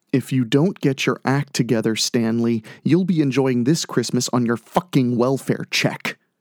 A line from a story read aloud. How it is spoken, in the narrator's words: whispered loudly